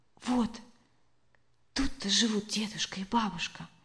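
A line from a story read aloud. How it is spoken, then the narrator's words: Whispered. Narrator (Russian): шепотом проговорила Олеся Сашко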